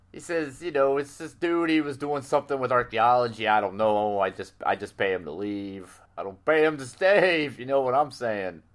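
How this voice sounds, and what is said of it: Put-on New York gangster accent. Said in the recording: “does this New York accent thing ... he talks like a 1930s gangster”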